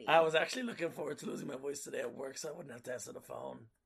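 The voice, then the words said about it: Hoarse, nearly lost voice. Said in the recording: “As you wonder why she doesn't have a voice ... Her voice went.”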